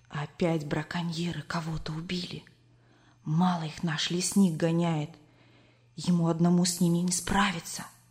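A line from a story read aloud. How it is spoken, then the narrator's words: Whisper. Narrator (Russian): Коля зашептал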